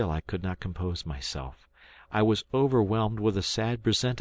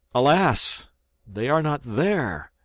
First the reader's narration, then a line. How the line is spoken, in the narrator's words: I cried